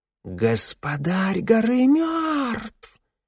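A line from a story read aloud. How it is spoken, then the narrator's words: Loud hiss from crowd. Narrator (Russian): кто-то громко прошипел в толпе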